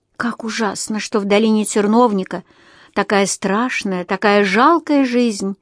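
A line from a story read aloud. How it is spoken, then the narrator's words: Sighing. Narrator (Russian): вздохнула Эльфрида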